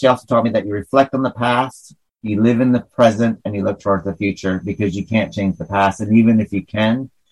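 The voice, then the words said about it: Hick Northern New York accent. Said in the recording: “my hick accent's coming out when I talk about my grandma... the Northern New York is coming out”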